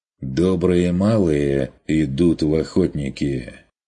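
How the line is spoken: Gloomy objection. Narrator (Russian): мрачно возразил Ван Ален

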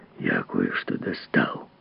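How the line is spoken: Hoarse whisper. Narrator (Russian): хриплым шепотом сказал писатель

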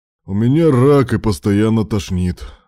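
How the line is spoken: Heavy sigh. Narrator (Russian): Руслан тяжело вздохнул

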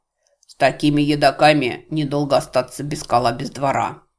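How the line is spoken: Grumbling. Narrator (Russian): Мистер Крокенторп проворчал

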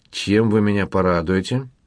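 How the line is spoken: Rather dry inquiry. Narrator (Russian): довольно сухо осведомился заказчик

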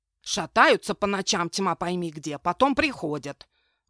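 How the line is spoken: Old woman grumbling. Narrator (Russian): ворчала старуха Эльма

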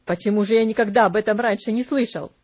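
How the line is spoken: Slightly irritated question. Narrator (Russian): немного раздраженно спросил

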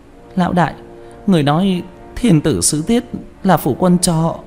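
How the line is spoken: Trembling. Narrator (Vietnamese): Quả Cam run rẩy

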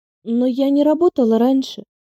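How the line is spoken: Sighing. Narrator (Russian): вздохнула

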